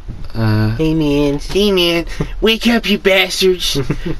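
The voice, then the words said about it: Hippie character voice. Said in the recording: “do a better hippie voice”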